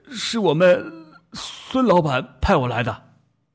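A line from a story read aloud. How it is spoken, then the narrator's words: Mournful. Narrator (Chinese): 那家伙一脸哭丧相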